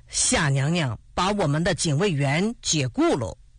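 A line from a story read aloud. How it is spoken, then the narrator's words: Smiling. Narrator (Chinese): 朱德笑着说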